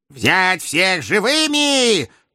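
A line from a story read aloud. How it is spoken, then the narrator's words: Shrill howl. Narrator (Russian): тонко взвыл глава совета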